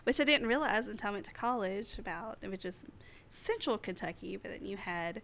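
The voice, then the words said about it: Southeast Kentucky rural accent. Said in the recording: “I'm from Southeast Kentucky ... I have a hick accent ... guess I have a little accent”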